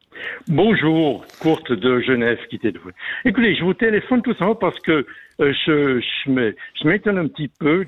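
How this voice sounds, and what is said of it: Swiss German accent in French. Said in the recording (French): “je suis donc suisse allemand, j'ai l'accent suisse allemand”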